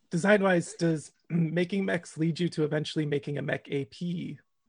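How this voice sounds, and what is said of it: Strained, failing voice. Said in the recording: “I'm choking up ... I'm losing my voice”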